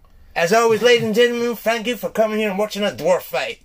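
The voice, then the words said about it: Poor, preachy imitation of a TV host. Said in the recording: “Is that a really shit Jerry Springer impersonation? ... It was getting like a kind of fucking Joel Osteen sort of preachery type.”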